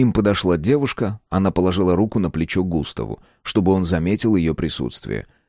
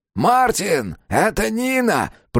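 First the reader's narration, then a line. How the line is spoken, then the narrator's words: Shouting. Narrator (Russian): прокричал Густав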